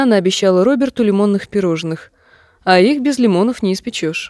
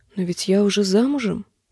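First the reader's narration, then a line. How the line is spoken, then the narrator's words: Whispered. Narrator (Russian): прошептала она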